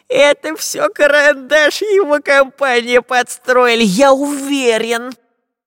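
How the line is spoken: Nasal whine. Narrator (Russian): прогнусавил длинноносый шпион

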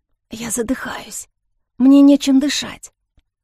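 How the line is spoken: Barely audible whisper. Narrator (Russian): Кая едва прошептала

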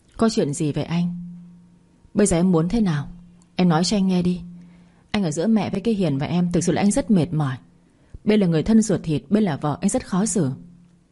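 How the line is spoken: Sighing question. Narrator (Vietnamese): Tôi thở dài hỏi lại

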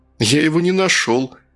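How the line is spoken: Sad sigh. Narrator (Russian): следователь грустно вздохнул

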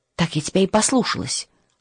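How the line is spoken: Snapping whisper. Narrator (Russian): огрызнулась шепотом Матильда

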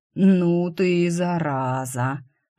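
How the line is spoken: Drawled, admiring or spiteful. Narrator (Russian): протянул инкуб, то ли восхищенно, то ли злобно

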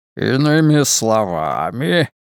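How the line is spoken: Purring. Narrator (Russian): промурлыкал кардинал Лурдзамийский

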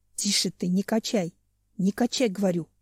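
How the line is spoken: Hissing finch. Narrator (Russian): шипел зяблик

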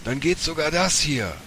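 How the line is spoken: Called out, pelican. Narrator (German): rief der Pelikan

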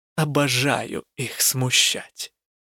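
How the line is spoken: Admiring whisper. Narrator (Russian): Элла шепнула восхищенно

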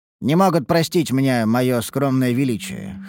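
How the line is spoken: Wry snort. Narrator (Russian): хмыкнул я

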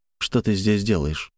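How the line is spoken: Cold question. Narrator (Russian): спросил я холодно

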